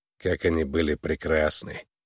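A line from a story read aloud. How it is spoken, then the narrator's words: Sad. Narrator (Russian): грустно произнес Вой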